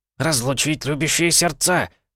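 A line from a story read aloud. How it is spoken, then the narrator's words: Old man barking. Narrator (Russian): рявкнул дед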